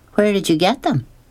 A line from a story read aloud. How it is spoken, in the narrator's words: she asked again